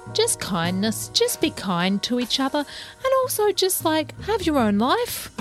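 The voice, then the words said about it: Imitating her mother's voice. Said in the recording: “I did that voice for my mother. She's not quite like that.”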